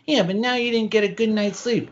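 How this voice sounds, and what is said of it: Small baby-like voice. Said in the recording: “a little baby voice”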